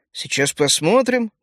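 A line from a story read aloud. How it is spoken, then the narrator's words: Muttered grumble. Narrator (Russian): буркнул я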